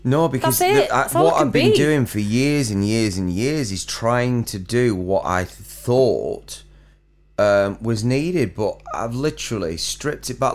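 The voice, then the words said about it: Slight Chorley accent. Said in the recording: “a little bit of a Chorley accent”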